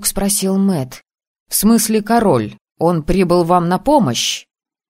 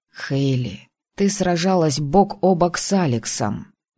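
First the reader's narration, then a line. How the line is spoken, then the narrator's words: Quiet. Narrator (Russian): тихо проговорил Тор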